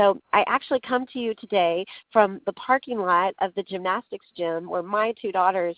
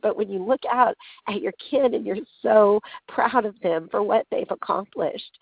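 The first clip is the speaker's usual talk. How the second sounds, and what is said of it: Emotional, choked-up voice. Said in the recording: “tears of joy are streaming down my face ... sorry if I'm getting emotional here”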